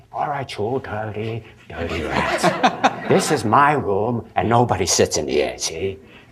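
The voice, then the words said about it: James Cagney impression. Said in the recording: “impersonating different people, different stars ... people like James Cagney”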